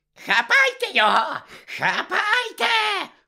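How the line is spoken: Woman's shriek. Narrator (Ukrainian): верещала Амбридж

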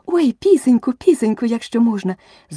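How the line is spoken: Joyful shout. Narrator (Ukrainian): закричала Аліса з такою радістю

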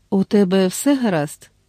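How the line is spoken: Worried, tender question. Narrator (Ukrainian): стурбовано і ніжно спитала

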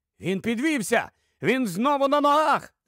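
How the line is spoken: Incredulous shout. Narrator (Ukrainian): закричав, широко розкривши очі і не ймучи віри тому, що побачив

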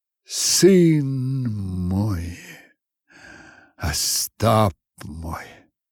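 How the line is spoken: Quiet, head bowed. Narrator (Russian): тихо понурив голову, говорил он

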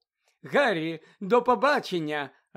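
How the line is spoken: Joyful call. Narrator (Ukrainian): радісно гукнула Ріта Скітер

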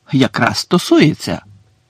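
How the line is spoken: Fervent exclamation. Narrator (Ukrainian): палко вигукнув Гаррі

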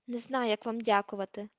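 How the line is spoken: Trembling voice. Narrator (Ukrainian): тремтячим голосом сказав Рон

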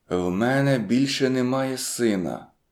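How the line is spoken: Whispered. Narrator (Ukrainian): проказав пошепки Річард

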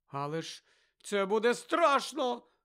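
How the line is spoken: Exclaimed. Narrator (Ukrainian): вигукнула Лаванда

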